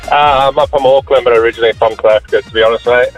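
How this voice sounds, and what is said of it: South African English accent. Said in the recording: “Accent, where are you from? ... South Africa!”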